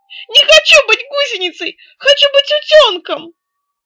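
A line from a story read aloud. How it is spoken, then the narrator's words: Terrified wail. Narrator (Russian): он очень испугался и завопил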